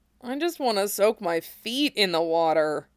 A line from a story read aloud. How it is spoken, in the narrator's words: Cloud groaned